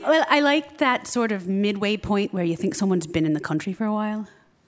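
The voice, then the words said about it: Light put-on Irish accent. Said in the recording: “It's like kind of American, but not entirely. There's a tinge to it. ... What I'm doing right now. ... I don't fake the Irish every day.”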